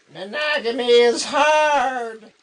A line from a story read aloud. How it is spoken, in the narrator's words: it said in a tinny voice